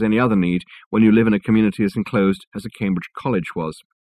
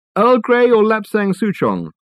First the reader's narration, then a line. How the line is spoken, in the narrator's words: called out Reg